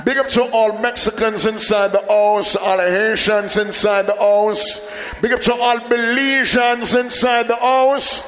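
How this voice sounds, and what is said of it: Jamaican accent. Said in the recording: “if you can't catch my accent, big up to all Jamaicans”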